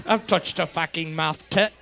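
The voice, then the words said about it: Put-on Scottish accent. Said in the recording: “It sounds like a Scottish person saying math tit ... Our Scottish accent is... It's not as good as our Italian.”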